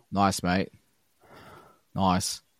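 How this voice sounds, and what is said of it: Put-on Australian accent. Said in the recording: “That's my Australian accent ... It's not bad.”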